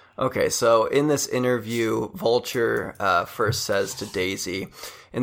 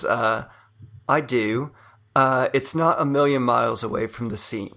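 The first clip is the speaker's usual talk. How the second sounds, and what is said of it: Cute British Daisy Ridley impression. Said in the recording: “do a Daisy Ridley impression ... just try to be as adorable as you can possibly muster ... Cute Brit.”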